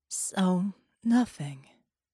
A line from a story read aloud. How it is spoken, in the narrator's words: she said in a hoarse voice